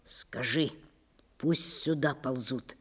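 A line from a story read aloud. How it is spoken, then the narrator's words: Whisper. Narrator (Russian): шепнул он партизану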